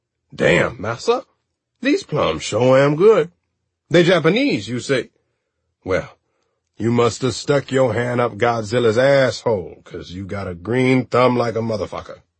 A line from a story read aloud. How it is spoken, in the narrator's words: exclaiming